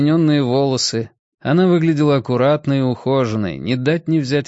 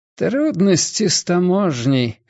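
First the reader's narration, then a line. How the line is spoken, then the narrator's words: Hoarse reply. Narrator (Russian): хриплым голосом ответила она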